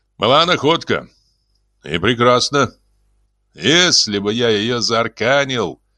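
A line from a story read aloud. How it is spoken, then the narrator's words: Gloomy reply. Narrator (Russian): мрачно ответил Свенсон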